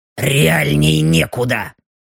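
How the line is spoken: Gruff mutter. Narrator (Russian): буркнула Белочка

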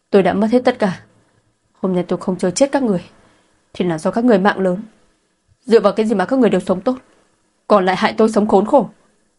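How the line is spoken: Trembling desperate shout. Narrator (Vietnamese): Cơ thể Mộ Tuyết run rẩy không ngừng, bất chấp hét lớn

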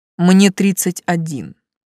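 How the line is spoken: Indignant declaration. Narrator (Russian): возмущенно заявил обманщик

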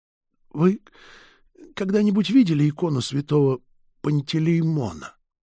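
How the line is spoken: Heavy sigh, then question. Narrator (Russian): Отец Северин тяжело вздохнул и спросил

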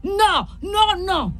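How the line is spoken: Confused yell. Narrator (Italian): urlò lui a sua posta, senza capire più nulla

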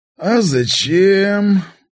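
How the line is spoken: Lazy question. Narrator (Russian): лениво спросил я

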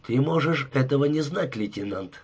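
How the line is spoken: Calm. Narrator (Russian): спокойно сказал Дарси

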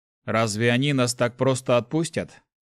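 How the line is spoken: Wry grunt. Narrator (Russian): хмыкнул охотник

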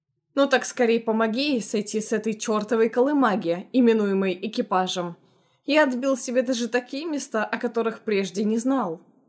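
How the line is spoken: Chuckling. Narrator (Russian): хохотнул будущий тесть

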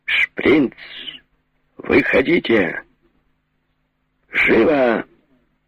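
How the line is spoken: Loud shout. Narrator (Russian): громко кричу

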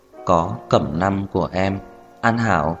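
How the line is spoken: Clear, cold, slightly hoarse, slow. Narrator (Vietnamese): Âm thanh trong trẻo lạnh lùng mang theo vài phần khàn khàn, chậm rãi nói ra

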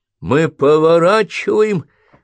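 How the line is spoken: Shouted. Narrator (Russian): крикнул доктор Блейкли

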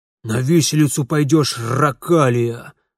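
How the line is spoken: Growled. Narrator (Russian): рыкнул Гнат Гнатыч

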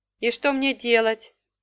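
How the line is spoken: Glum question. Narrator (Russian): уныло спросила я

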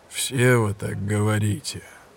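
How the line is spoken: Grim conclusion, inspector. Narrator (Russian): мрачно заключил инспектор

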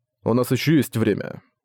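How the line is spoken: Cold. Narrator (Russian): Цзуи холодно произнес

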